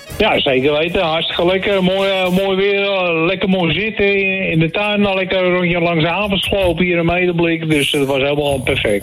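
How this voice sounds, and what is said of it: North Holland Dutch accent. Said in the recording (Dutch): “een heel fijn Noord-Hollands accent ... een prachtig accent”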